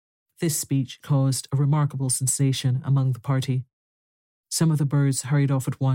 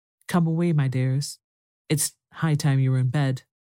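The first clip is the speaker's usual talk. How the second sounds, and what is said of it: Trembling voice. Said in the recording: “in a trembling voice”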